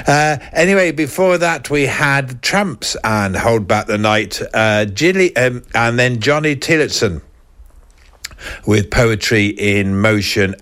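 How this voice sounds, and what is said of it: Slightly hoarse, croaky voice. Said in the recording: “excuse me, I've got a little bit of a frog in my throat”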